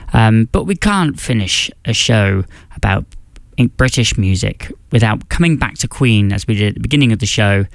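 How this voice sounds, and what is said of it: British accent. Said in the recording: “As you can tell by my accent, that is exactly where I'm from ... my home country of the United Kingdom”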